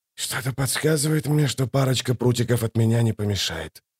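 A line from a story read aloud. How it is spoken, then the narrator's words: Mumbled. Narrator (Russian): пробормотал он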